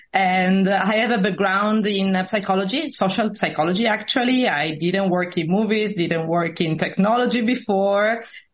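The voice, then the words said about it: Italian accent in English. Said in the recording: “I'm Italian. You can hear it from the accent.”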